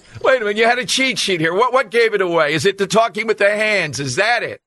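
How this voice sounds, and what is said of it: South Philly accent. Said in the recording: “Yes, you do. You do. You sound like you're from South Philly.”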